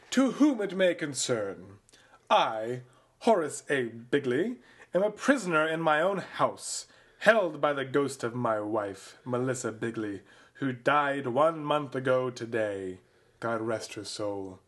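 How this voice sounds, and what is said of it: Staunchy aristocratic accent. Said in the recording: “If you do this with, like, your best, like, staunchy aristocratic accent.”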